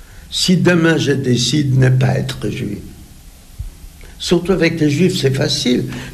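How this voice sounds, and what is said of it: Slight foreign accent. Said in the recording (French): “un petit accent comme moi”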